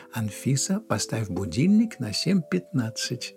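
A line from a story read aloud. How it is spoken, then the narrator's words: Plain. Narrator (Russian): сказала колонке мама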